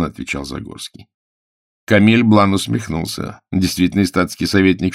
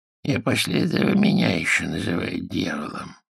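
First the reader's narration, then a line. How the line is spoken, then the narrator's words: Creaky admiring voice. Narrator (Russian): проскрипел он с восхищением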